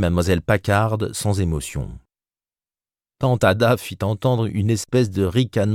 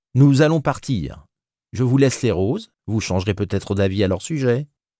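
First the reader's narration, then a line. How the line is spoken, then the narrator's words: Cheerful. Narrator (French): fit gaiement Tupence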